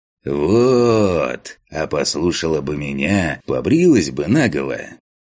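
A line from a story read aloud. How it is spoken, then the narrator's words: Preachy, declaiming voice. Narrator (Russian): назидательным голосом продекламировал Фантик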